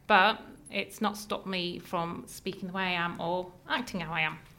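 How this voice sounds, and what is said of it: Northeast English accent. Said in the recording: “you can tell from my accent, I am not from this area. I am from the northeast of England ... being a northerner”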